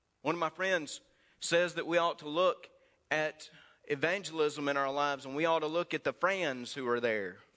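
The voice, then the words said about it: Mississippi Southern American accent. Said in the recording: “my Mississippi accent”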